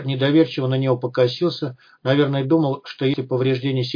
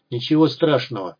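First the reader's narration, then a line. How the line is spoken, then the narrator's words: Cold. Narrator (Russian): холодно сказал Мулат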